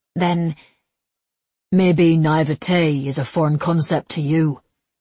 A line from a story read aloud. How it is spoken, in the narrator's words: he said dryly